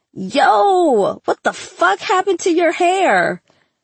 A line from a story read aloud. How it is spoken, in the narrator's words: Trevor screamed